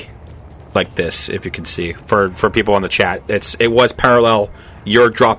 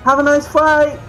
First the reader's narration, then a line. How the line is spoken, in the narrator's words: It's yelling at you in Infernal